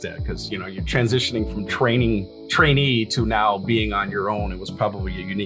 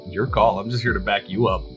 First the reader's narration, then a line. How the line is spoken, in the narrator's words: I just chuckled and said